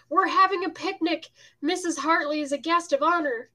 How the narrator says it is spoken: A 60-ish but vigorous woman, shouted

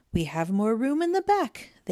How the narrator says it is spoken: cried

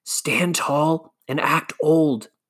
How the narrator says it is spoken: David whispered

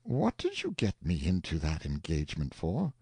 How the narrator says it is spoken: the uncle reproached the nephew gently, saying

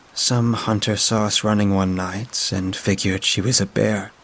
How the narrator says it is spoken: I said, struggling to keep my voice even

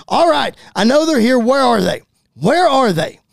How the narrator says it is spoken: Edge running out of the production truck and into the building yelling

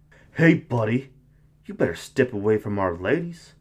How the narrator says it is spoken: Chad warned, his voice dripping with aggression

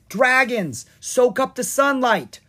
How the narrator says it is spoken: Brighteye called out

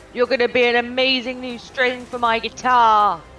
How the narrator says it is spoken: shout

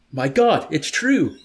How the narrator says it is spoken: Yessarian shrieked in terror

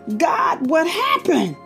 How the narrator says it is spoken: screamed into the dark

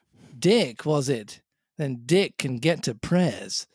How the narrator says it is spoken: said Silver

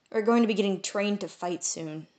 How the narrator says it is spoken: I said sadly

